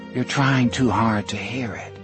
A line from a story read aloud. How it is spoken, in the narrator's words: she said gently